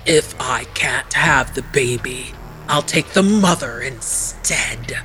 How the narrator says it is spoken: Arpe hissed

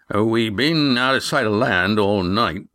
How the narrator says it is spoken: began Red Ian, and then stopped at Yan's look of terror

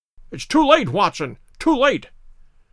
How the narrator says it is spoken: cried, panting

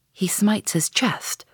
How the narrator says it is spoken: whispered Stubb

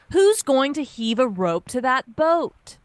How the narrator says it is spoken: The first mate cried

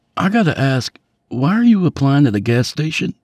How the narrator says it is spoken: Duncan chuckled

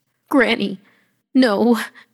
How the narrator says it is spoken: I croaked

